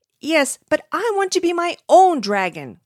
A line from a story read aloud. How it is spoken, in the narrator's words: Cornelius cried